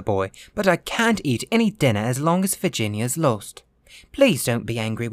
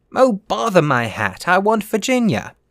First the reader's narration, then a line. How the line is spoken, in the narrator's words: cried the little Duke, laughing